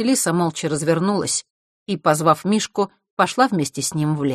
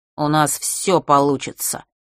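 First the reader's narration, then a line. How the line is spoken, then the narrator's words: Through gritted teeth. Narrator (Russian): процедил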